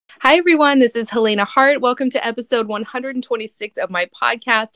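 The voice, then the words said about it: Sick, rough-sounding voice. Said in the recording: “I'm actually very sick today. I know my voice sounds terrible”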